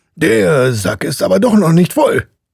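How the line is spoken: Called out. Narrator (German): rief

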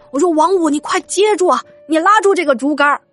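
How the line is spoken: Shouting while running. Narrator (Chinese): 一边跑，我还对他喊

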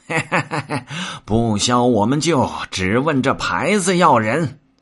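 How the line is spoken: Laughing. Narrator (Chinese): 行者笑道

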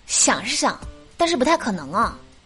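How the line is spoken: Sighing. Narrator (Chinese): 我妈叹气说

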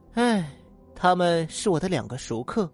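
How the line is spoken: Sighing. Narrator (Chinese): 小红叹了口气说

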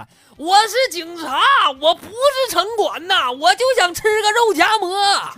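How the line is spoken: Shouting. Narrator (Chinese): 这穿穿制服的警察大哥接着喊

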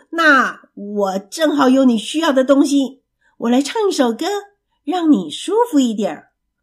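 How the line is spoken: Loud announcement. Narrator (Chinese): 老鼠大声的宣布

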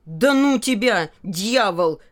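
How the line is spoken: Shout. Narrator (Russian): крикнул Филька

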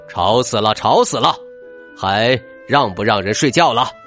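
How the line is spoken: Lion roaring. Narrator (Chinese): 狮子咆哮道

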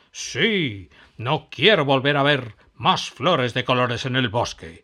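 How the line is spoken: Witch growling. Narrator (Spanish): gruñó la bruja

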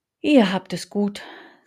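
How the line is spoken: Fox speaking with sigh. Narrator (German): sagte der Fuchs und stieß einen Seufzer aus

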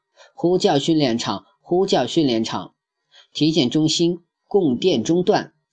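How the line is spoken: Flat monotone. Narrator (Chinese): 声音毫无起伏的说道

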